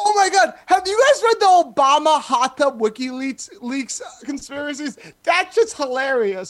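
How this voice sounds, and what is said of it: Usual voice. Nothing is said of it.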